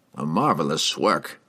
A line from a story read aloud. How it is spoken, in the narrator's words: he mumbled